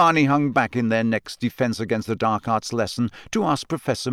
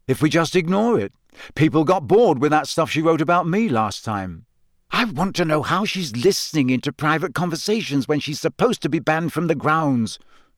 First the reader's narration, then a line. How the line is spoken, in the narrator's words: said Hermione angrily